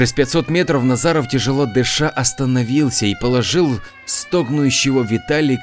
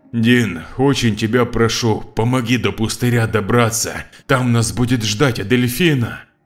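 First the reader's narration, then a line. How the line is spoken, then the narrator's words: Breathless exhale. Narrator (Russian): Виталик выдохнул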